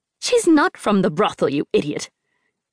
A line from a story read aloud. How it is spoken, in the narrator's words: Auntie Fang snapped